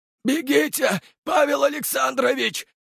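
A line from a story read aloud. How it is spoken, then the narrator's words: Hoarse voice. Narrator (Russian): Голос лысого хрипел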